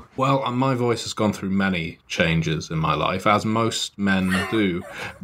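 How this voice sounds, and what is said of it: British accent. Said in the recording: “I affect this accent, that I'm not actually British ... I am from Britain”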